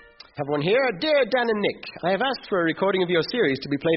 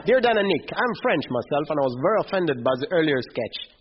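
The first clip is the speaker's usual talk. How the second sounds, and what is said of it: Silly put-on French accent. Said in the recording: “you're reading this in a really silly French accent”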